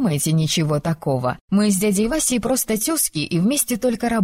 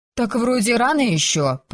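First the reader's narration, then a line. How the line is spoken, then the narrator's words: Grumble. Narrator (Russian): проворчала я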